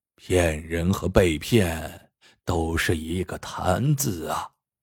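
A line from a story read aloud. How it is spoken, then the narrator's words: Old man's long sigh. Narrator (Chinese): 老秀才摇头长叹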